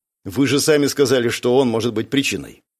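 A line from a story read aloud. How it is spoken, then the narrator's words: Cold reminder. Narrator (Russian): холодно напомнил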